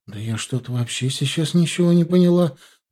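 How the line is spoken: Confused. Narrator (Russian): растерянно ответила ему Маша

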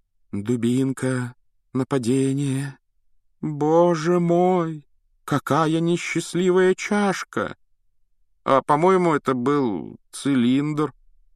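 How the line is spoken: Uncertain drawl. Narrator (Russian): неуверенно протянул Рон

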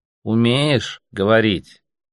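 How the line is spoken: Slow little elephant voice. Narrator (Russian): медленно повторил слоник

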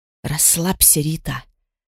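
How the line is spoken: Whisper. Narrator (Russian): шепнула Эрата

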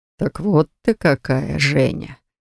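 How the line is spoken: Smirking snort. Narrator (Russian): хмыкнул он

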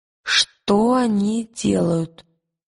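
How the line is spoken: Strained, forced out. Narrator (Russian): Выдавила из себя Лира

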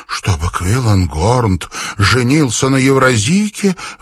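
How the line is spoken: Exclaimed. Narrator (Russian): воскликнула

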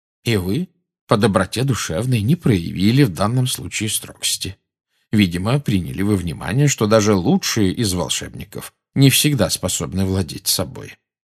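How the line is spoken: Calm speech. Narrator (Russian): спокойно проговорил Дамблдор

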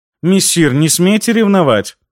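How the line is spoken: Indignant. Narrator (Russian): Возмущенно озвучила она свою догадку

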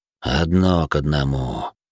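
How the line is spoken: Gloomy. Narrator (Russian): мрачно произнес Майкл

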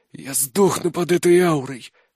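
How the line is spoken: Wheezing. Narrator (Russian): прохрипел я

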